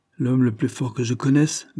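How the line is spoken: Disconcerted muttering in ear. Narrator (French): grommela le coroner déconcerté à l'oreille de Hammersmith

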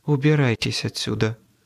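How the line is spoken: Quiet woman's voice. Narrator (Russian): тихо произнесла она

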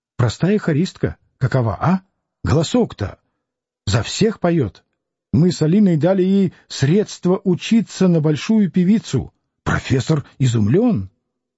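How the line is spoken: Whispering in ear. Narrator (Russian): зашептал в ухо Самгина

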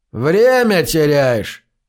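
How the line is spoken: Indifferent tone. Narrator (Russian): сказал Слеттер безразличным голосом

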